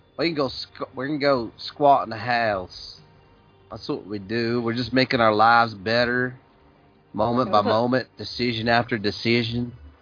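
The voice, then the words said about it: Poor put-on Texas accent. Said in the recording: “That was an awful... Texas accent. ... You sound like an Australian hillbilly.”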